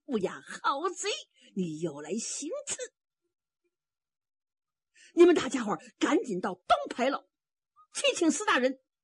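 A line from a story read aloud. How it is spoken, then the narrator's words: Shouted. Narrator (Chinese): 蛮南侠喊了一声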